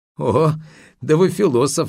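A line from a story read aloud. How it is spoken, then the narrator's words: Laughing. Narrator (Russian): засмеялся Сотников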